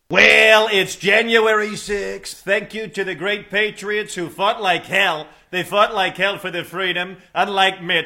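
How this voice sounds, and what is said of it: Donald Trump impression. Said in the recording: “a great new impersonator that I found. He is going to go from Trump to Mitch McConnell to Obama to Fauci to Chuck Grassley and to Biden ... He is a he's a great impersonator”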